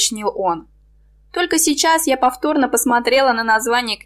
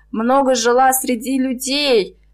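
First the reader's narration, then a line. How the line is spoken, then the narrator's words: Uncertain mumble. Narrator (Russian): неуверенно пробормотала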